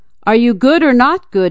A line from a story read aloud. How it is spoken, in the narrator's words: yelled